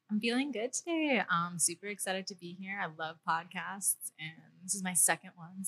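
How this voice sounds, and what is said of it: Smooth, sexy podcast voice. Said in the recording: “She has a podcast voice. Yeah, it's pretty sexy. It's nice.”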